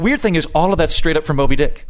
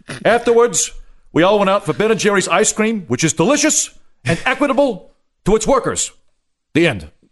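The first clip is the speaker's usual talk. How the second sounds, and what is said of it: Bernie Sanders impression. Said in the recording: “this is solid Sanders ... it's just me doing it with the Bernie Sanders accent.”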